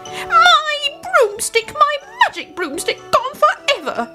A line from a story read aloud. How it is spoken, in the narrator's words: she howled